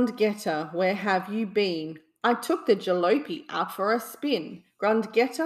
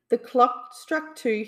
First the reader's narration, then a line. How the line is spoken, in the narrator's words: he cried